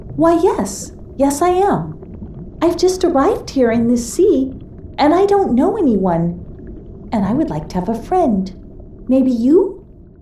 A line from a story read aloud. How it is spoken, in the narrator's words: burbled out Carolesse as sweetly as she could